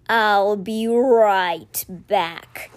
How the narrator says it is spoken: he growled

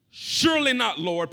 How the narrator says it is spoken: Peter replied

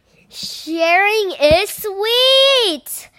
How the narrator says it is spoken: cried Clark the shark

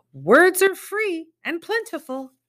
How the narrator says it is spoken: He would yell

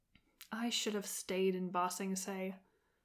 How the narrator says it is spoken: Zuko muttered under his breath

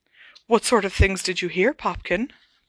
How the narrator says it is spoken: breathed Aunt Petunia, very white-faced and with tears in her eyes

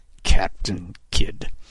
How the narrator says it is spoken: Kidd muttered under his breath

